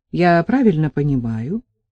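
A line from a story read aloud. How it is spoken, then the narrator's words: Grim smirking. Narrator (Russian): Степан усмехнулся довольно мрачно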